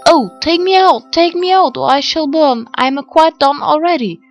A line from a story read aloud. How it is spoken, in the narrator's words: the bread cried out